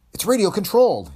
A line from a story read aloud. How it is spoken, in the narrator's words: cried